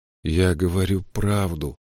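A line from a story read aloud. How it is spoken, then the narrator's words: Muttering. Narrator (Russian): пробормотал он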